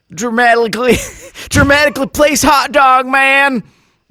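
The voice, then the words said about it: Put-on Australian accent. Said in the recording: “my accent work here. Australian accent.”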